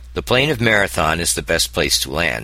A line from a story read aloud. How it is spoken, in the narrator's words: he had said